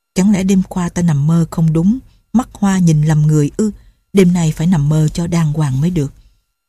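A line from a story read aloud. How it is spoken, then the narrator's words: Muttering. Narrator (Vietnamese): Lệnh Hồ Xung lẩm bẩm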